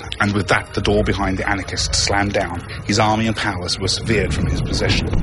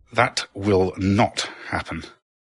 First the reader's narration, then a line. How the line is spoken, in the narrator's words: said slowly and angrily, her teeth clenching down